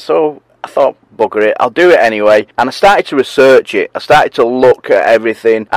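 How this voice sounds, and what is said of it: Northern English accent. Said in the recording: “I've got a bit of a dodgy accent going on, which is from up north.”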